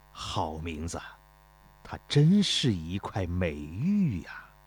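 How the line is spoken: Admiring praise. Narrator (Chinese): 太子赞叹道

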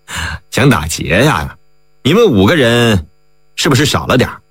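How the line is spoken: Cold laugh. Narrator (Chinese): 梁军冷冷的一笑

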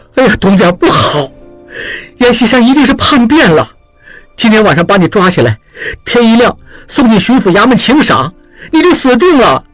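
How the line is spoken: Shouting. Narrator (Chinese): 小栓叫道

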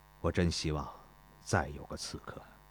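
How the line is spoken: Muttered. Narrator (Chinese): 孙膑还在想钟离春，他喃喃地说道

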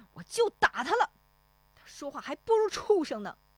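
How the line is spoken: Angry. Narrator (Chinese): 石丽华怒声说

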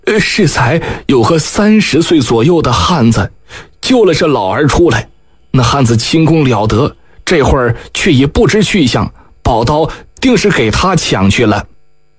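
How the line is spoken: Trembling voice. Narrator (Chinese): 只听另一人颤声道

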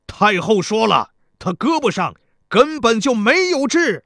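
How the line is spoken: Loud shout. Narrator (Chinese): 田国听后高声喊道

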